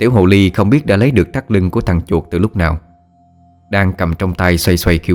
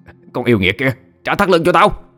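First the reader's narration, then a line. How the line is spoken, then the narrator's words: Angry shriek. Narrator (Vietnamese): Thằng chuột tức giận thét lên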